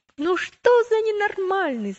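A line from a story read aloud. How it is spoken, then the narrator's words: Shouting together. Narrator (Russian): закричали они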